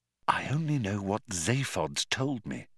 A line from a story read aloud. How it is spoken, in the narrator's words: she whispered